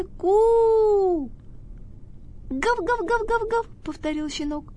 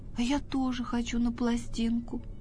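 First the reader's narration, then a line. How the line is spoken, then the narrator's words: Sighing. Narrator (Russian): вздохнул Тявка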